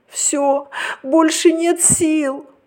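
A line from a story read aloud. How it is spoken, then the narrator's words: Tearful. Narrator (Russian): проговорила сквозь слезы кукла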